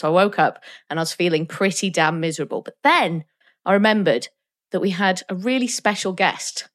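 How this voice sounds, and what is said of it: Voice sounding like a cold. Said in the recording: “I've got a cold”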